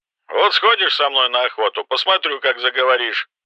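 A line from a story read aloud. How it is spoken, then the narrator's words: Menacing. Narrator (Russian): грозно произнес Кэмпбелл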